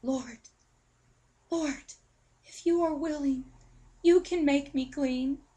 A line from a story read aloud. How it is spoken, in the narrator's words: he begged him